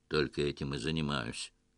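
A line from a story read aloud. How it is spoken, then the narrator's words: Dry grumble. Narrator (Russian): сухо буркнул эмир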